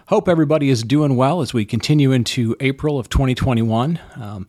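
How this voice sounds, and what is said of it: Slightly hoarse voice. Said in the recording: “my voice sounds a little bit hoarse ... pollen”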